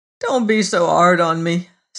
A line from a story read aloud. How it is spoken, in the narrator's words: said Barber miserably